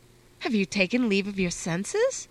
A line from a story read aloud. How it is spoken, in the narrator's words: his startled mother exclaimed